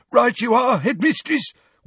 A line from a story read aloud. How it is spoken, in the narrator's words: wheezed Filch